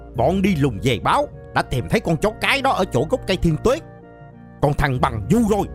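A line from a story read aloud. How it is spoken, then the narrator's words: Roar. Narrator (Vietnamese): Trưởng trại tù gầm lên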